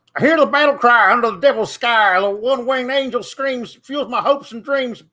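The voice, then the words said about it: Sung in a redneck accent impression. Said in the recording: “weird redneck impression from TikTok ... an impersonation of what Denise says that I sound like”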